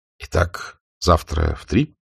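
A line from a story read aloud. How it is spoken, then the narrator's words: Quiet question. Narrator (Russian): спросил Исаев тихо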